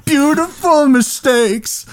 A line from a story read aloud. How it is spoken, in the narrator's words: he's screaming